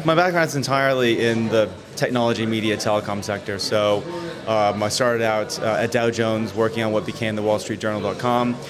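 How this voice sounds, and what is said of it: American accent. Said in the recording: “I'm detecting from your accent that you're not a native. ... from the Northeast of America”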